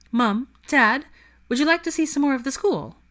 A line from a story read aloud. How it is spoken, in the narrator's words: asked brightly